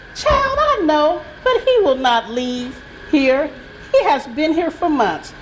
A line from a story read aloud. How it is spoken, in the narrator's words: She chuckled and said